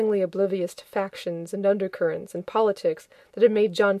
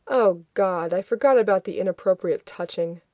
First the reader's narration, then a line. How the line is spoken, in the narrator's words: moaning